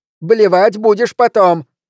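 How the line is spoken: Barking. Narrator (Russian): рявкнула она

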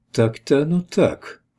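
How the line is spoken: Uncertain. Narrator (Russian): проговорила неуверенно

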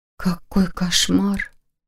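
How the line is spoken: Sympathetic sigh. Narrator (Russian): сочувственно вздохнула Лиля

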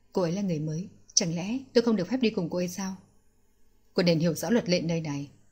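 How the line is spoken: Whisper. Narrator (Vietnamese): Tề Lê thì thầm với người đàn ông kia

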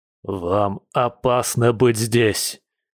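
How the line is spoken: Hoarse growl. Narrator (Russian): хрипло прорычал Дима

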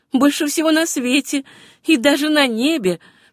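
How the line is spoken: Still laughing. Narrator (Russian): все еще смеясь, ответила она

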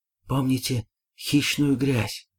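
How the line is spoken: Strained, forced out. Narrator (Russian): выдавил из себя профессор

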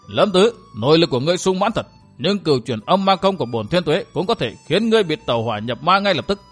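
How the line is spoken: Flushed old man, harsh emphatic. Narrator (Vietnamese): Mặt Thiên Tuế gia đỏ bừng, lão gằn giọng nói

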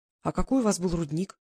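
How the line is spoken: Plain. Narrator (Russian): зачем-то спросила Глаша

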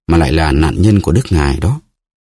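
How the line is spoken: Sighing. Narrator (Vietnamese): Melody thở dài nói

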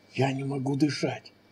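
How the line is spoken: Hoarse wheeze. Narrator (Russian): прохрипела

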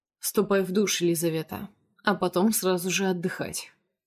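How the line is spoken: Uncompromising command. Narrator (Russian): велит он бескомпромиссным тоном

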